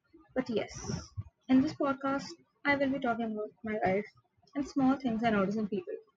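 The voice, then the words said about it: South Asian accent. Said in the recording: “situated somewhere in South Asia, like you guessed from my accent”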